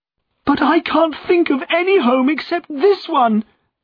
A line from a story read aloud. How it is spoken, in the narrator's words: cried Eppie, tears running down her face